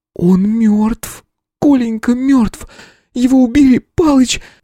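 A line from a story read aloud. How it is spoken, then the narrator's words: Wheezing into phone. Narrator (Russian): Просипела она в трубку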